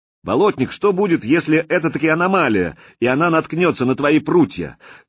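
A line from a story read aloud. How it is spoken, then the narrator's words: Loud question. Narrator (Russian): громко, чтобы все слышали, спросил я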